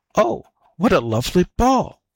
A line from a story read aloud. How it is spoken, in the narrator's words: cried she